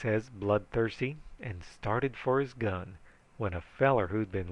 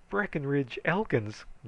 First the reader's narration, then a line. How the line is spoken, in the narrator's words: gasped Curly